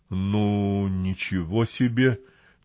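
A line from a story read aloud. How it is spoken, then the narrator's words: Forced out, stunned. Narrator (Russian): только и смог выдавить один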